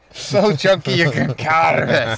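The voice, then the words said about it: Poor put-on Scottish accent. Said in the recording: “that was a shit Scottish accent”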